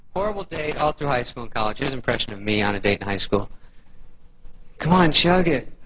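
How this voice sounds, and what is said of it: Usual voice. Nothing is said of it.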